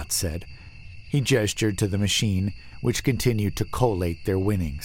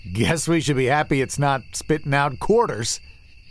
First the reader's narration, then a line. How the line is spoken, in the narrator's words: said, and laughed a nervous bark